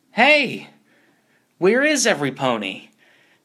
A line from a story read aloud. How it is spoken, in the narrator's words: Pinky yelled around at the void